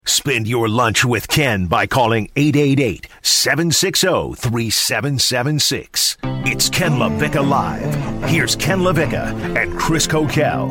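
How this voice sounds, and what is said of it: Deep announcer voice. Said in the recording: “The deep voice guy is correct.”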